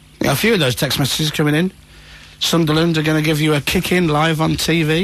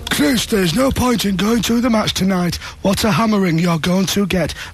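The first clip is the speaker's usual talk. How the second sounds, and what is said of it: Put-on Sunderland accent. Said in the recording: “That was a genuine Sunderland accent that I just did there”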